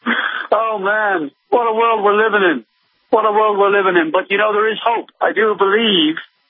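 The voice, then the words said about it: British accent. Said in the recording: “you are doing a British accent. You really are from the UK.”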